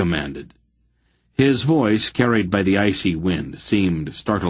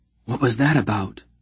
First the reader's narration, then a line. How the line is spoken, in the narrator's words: Geryon whispered